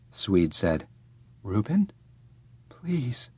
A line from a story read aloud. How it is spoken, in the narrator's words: I whispered